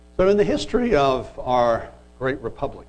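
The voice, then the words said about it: Cracking voice like a teenage boy. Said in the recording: “excuse me, my voice sounding like a teenage boy.”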